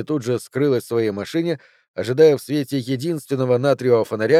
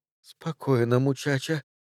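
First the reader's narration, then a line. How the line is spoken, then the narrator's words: Muttering under breath. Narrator (Russian): пробормотала она себе под нос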